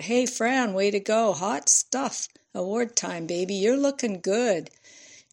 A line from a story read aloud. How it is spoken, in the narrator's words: colleagues of every sort and level shouted out